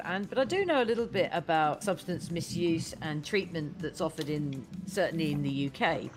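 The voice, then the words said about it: Non-local accent. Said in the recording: “you can hear by my silly accent that I'm not from these parts”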